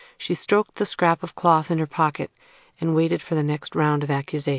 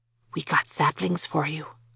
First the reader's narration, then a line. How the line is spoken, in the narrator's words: he whispered